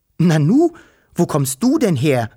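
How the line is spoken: Called out. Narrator (German): rief es

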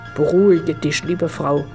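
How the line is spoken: Plain. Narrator (German): sagte er

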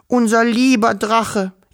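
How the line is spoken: Wailing. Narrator (German): jammerte Wischel

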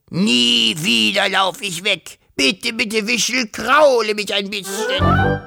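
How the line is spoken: Hissing. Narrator (German): fauchte

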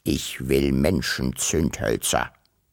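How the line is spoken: Stubborn grunt. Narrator (German): grunzte bockig

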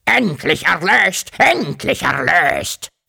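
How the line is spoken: Croaked. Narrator (German): krächzte

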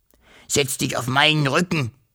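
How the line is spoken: Hissing dragon. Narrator (German): fauchte der Drache

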